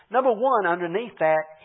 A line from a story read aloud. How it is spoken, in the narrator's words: he cried